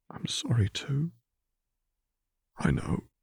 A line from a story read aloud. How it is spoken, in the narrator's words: Zev echoed back quietly